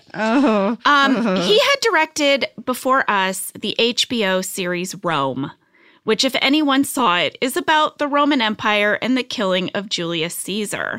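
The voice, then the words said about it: Put-on British accent. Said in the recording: “don't do your accent. ... Bringing out the accent, guys. ... now I'm speaking like a Brit.”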